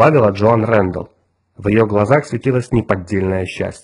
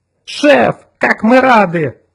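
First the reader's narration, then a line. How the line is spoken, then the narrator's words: Yelling. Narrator (Russian): завопил Отто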